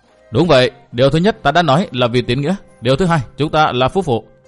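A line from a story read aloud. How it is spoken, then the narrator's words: Thin dismissive laugh. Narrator (Vietnamese): Quảng Kiệt cười nhạt nói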